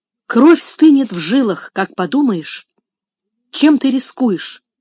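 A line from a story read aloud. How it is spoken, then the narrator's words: Exclaimed. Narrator (Russian): воскликнул мистер Вилсон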